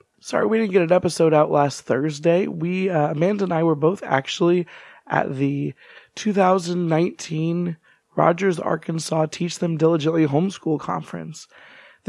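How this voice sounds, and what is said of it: Hoarse, strained, weak voice. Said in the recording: “Apologies for my voice right now. I actually lost my voice for this trip.”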